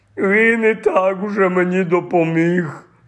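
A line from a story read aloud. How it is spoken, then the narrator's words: Moan. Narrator (Ukrainian): простогнав Гегріт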